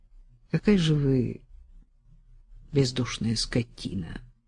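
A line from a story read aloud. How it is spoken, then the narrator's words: Quiet. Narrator (Russian): сказал он тихо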